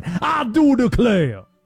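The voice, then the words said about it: Exaggerated Southern cartoon drawl. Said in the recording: “worst Louisiana accent or impression ... third-rate foghorn leghorn. Ridiculous voice ... Governor Landry sounds exactly like Foghorn Leghorn, and it's actually a spot-on impression I was doing”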